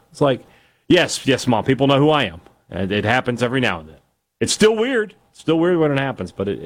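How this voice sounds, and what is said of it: Usual voice. Nothing is said of it.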